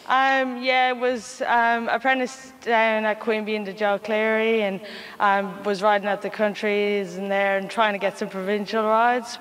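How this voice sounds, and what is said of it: Irish accent. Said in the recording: “That accent doesn't sound very like it's a local like mine. ... Ireland. I'm Irish, yeah.”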